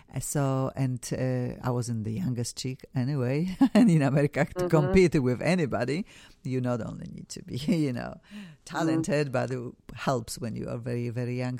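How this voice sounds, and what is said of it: Non-native accent in English. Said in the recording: “my English was horrible. Still, I have an accent.”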